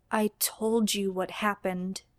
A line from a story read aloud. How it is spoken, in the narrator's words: Jimmy says, his voice low, but Dean has no trouble hearing him